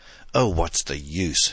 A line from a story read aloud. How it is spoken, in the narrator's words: she cried disconcertedly